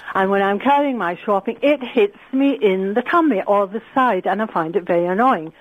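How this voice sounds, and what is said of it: Indian accent, clear enunciation. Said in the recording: “your funny accent. Apart from the accent, you speak proper ... you can't get rid of the accent ... Indian”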